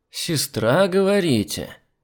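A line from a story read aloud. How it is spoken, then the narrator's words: Drawled. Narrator (Russian): Протянул служащий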